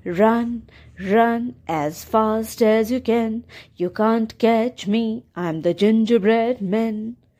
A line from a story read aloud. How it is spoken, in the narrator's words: sang in his sweet voice